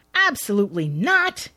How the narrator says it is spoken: protests loudly

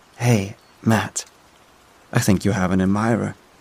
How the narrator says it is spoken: Juno whispered to me

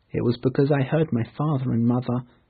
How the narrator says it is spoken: he explained in a quiet voice

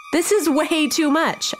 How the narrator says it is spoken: I yelled

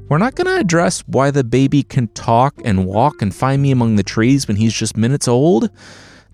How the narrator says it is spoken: the dad said

